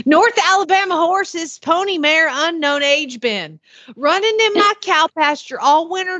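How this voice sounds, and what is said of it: Attempted Southern accent. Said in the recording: “I'll give it a try because it's not as sweet as your little Southern belle accent.”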